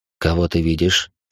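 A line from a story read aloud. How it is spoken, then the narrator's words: Calm uncle's question. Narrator (Russian): спокойно спросил дядя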